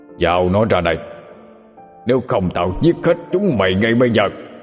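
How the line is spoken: Demon leader roaring. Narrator (Vietnamese): Quỷ thủ lĩnh cũng không phải tinh đần, hắn gầm lên

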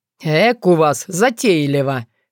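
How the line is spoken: Wry snort. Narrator (Russian): хмыкнул Тявин

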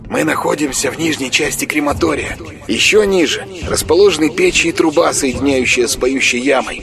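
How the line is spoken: Whisper inside the head. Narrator (Russian): зашептал в голове Курамонова голос Марка

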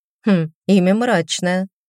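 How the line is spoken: Skeptical hum. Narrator (Russian): хмыкнула

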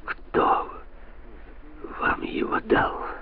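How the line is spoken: Hoarse rasp. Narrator (Russian): Наконец прохрипел он

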